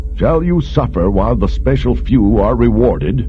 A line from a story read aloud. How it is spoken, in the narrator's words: Director Pravat called out to the crowd